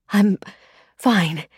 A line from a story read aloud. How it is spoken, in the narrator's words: she gasped, finally able to breathe